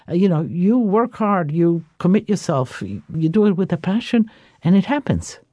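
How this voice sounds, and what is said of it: Speaks with a noticeable accent. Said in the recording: “your wonderful accent”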